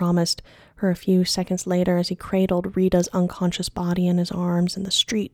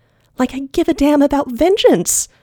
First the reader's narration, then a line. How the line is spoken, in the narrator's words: Wren had shrieked